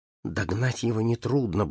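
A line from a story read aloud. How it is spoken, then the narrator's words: Muttering. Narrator (Russian): бормотал он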